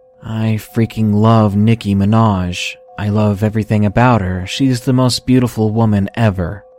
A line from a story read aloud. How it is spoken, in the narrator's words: he said in the most monotone and serious voice ever